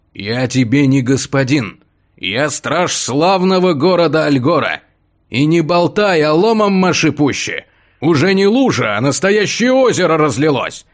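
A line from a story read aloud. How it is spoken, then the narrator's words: Irritated growl. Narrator (Russian): Раздраженно прорычал стражник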